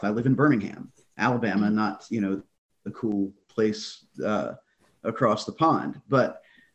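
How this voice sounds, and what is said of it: Deep Southern US accent. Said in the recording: “if you can't tell by the accent, I'm from the deep South”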